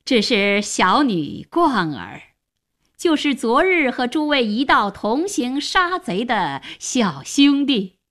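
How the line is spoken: Slight smile. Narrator (Chinese): 荀嵩微微一笑，向大家说

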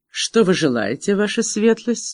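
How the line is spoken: Plain. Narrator (Russian): спросил он Меган

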